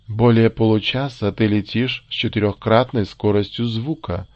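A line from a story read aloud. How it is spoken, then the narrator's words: Gentle voice. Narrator (Russian): заговорил кукольник своим нежным голосом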